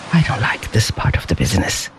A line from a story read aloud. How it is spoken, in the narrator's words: he muttered